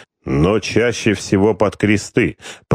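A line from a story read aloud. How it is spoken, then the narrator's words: Deep bass voice. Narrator (Russian): пробасил владыка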